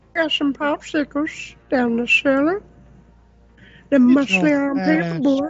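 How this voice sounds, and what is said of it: Creepy cartoon character voice. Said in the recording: “How well the three of you do that voice is a little creepy.”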